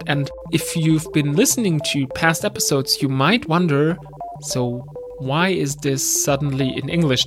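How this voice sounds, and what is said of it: German accent in English. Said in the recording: “I'm from Germany, as you can tell by my accent.”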